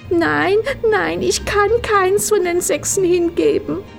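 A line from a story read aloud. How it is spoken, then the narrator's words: Sobbing. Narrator (German): schluchzte Frau Haselmaus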